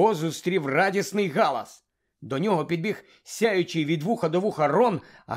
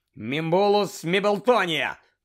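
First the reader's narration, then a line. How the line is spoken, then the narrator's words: Shouted. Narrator (Ukrainian): крикнув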